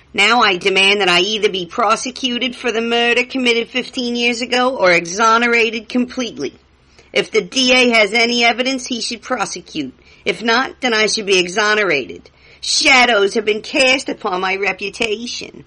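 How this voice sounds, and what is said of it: Put-on voice for reading a quote. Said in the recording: “doing my little quote voices”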